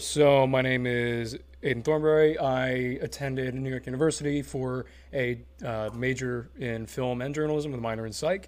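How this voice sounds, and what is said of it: Sick-sounding voice. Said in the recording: “I'm also vaguely dying right now, so excuse the way my voice sounds.”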